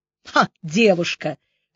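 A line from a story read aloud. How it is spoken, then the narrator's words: Old woman's scoffing snort. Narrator (Russian): хмыкнула старуха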